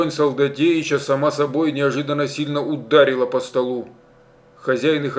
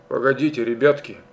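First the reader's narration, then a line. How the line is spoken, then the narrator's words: Forced calm. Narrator (Russian): Стараясь говорить спокойно, Степан Солдатеич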